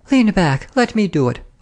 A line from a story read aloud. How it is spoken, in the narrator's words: I cried